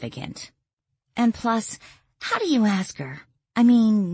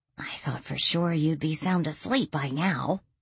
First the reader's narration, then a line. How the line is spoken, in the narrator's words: Lily whispered